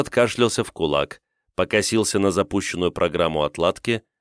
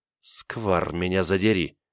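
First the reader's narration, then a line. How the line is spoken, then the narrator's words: Muttering. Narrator (Russian): пробормотала Ноэль крианидянское ругательство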